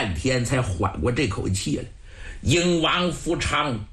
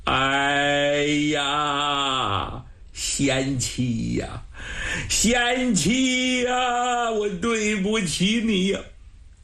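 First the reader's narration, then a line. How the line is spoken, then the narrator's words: Sobbing bitterly. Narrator (Chinese): 哭得目中带血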